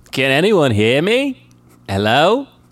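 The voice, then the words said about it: New Zealand accent. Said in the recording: “He cries out for help in an unmistakable New Zealand accent.”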